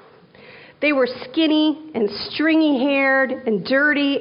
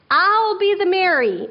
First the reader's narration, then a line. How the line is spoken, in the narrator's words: Imogen yelled